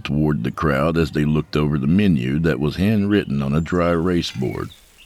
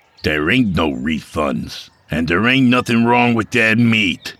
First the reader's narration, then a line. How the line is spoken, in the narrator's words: Mike snapped